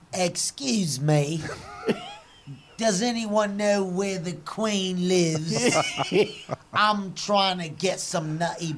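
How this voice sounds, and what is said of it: Put-on British accent. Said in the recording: “Can you do your best British accent for us, please? ... has a great one.”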